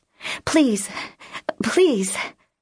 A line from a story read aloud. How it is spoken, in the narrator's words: gasped